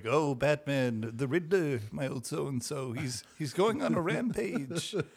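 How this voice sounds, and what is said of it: Weird 1930s-style multicultural accent. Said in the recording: “he talks in like a weird, like, yeah. 1930s kind of... accent or whatever he's doing is inexplicable... it's a multicultural accent... he's always going to be talking like that”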